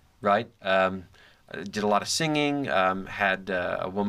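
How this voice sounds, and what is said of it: Usual voice. Nothing is said of it.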